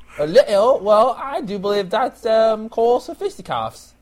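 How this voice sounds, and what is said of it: Put-on British accent. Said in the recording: “that's British... Are you mocking my accent?”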